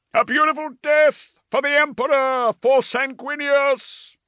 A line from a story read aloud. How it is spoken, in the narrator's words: the doomed angels shouted